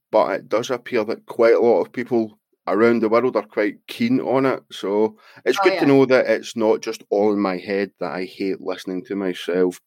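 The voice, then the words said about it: Scottish accent. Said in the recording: “I like it with your accent ... I'm from Scotland and I don't like my accent”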